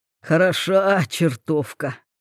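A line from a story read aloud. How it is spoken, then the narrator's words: Dreamy mutter. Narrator (Russian): мечтательно пробормотал Полухудков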